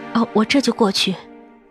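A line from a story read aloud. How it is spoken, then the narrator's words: Low, timid voice. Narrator (Chinese): 我哪里敢，只好低声说着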